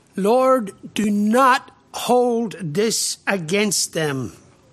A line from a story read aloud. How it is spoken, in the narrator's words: he cried out with a loud voice